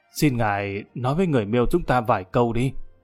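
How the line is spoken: Old man, amused, anxious, hushed. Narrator (Vietnamese): lão đầu này vừa tức cười lại vừa thấp thỏm lo lắng, hạ giọng nói

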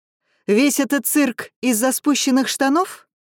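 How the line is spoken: Shouted out. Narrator (Russian): Алекс выкрикнула

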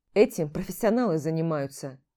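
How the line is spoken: Dry reply. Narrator (Russian): сухо ответил

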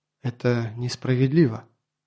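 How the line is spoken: Quiet. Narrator (Russian): Толла тихо произнесла

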